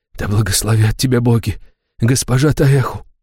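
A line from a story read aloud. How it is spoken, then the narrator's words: Whisper. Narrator (Russian): шептал он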